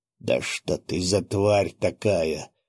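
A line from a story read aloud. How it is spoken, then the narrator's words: Hoarse wheeze. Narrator (Russian): засипел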